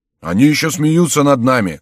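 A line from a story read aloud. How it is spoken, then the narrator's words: Crowd shouting. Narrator (Russian): закричали граждане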